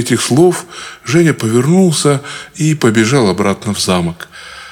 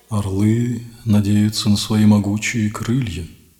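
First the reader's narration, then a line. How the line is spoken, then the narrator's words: Quiet, falcon. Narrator (Russian): негромко произнес сокол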